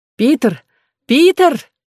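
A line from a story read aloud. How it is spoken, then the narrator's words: Shouting. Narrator (Russian): кричала Клариса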